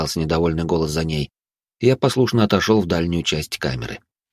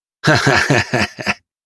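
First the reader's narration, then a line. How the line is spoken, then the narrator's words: Young man's loud laughter. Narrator (Russian): громко засмеялся молодой мужчина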